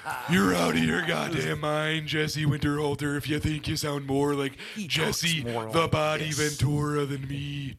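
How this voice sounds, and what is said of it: Subdued gruff wrestler impression. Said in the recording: “you're really just doing Macho Man. You're doing a slightly subdued Macho Man.”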